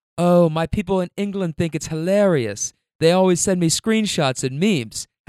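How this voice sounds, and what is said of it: Put-on British accent. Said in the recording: “How do you like my UK accent, by the way? Okay, I'm working on it”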